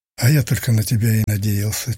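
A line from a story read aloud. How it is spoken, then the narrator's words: Hesitant dejected mutter. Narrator (Russian): чуть помедлив пробормотал Блох упавшим голосом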